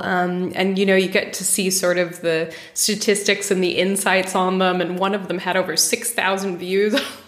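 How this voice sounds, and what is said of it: American accent. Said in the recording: “everyone can probably hear that you have an American accent”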